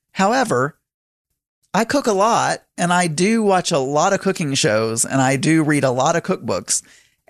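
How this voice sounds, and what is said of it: Southern American accent. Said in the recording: “I may have a Southern accent”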